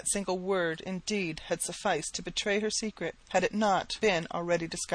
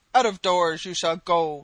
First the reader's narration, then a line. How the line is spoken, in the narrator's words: roared the old man